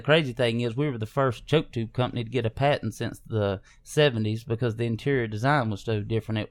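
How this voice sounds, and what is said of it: Southern Georgia American accent. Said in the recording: “you grew up in Southern Georgia ... if my accent doesn't give it away ... you about as country as mud”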